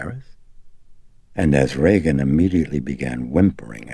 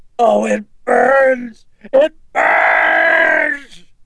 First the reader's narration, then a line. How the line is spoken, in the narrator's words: Reagan cried out gutturally as she thrashed about, writhing in terror and in pain